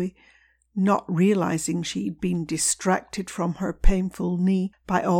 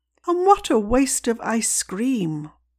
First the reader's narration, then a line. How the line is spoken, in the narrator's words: Levi moaned